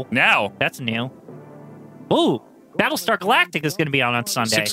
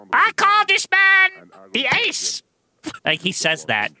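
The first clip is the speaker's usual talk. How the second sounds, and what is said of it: Imitates another person's voice. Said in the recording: “It's the best Roddy Piper impression I've ever...”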